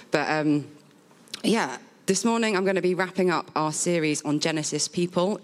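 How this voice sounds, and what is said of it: Husky, strained voice. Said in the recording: “you get husky ... this morning. My voice is not normally this bad, but I've been a little bit run down.”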